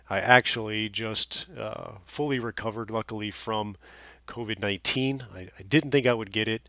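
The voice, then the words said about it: Slightly nasal, congested voice. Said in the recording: “my voice is a little nasally now”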